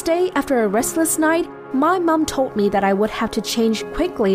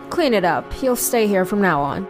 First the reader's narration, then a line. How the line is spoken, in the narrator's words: coldly said